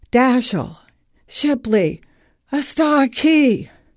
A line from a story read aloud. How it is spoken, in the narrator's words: Gasping between words, he whispers